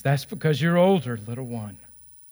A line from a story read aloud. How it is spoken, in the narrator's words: answered